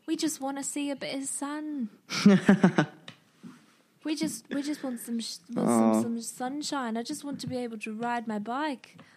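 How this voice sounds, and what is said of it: Poor put-on British accent. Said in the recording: “that was an awful accent.”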